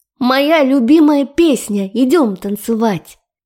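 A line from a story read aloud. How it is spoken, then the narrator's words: Happy, playful shout. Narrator (Russian): Прокричала она, улыбаясь так счастливо и задорно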